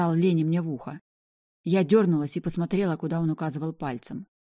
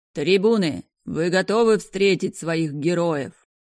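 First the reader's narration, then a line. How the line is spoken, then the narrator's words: Booming announcer over loudspeakers. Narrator (Russian): прогремел ведущий из рупоров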